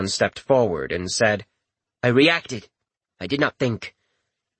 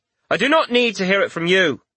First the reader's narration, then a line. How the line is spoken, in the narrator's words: she said sharply